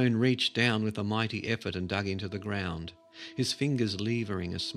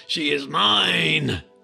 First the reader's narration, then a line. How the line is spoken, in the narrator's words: deafening howl